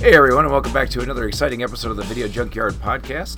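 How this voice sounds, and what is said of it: Raspy, sick-sounding voice. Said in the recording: “raspy grossness in my voice ... just an obnoxious like head cold”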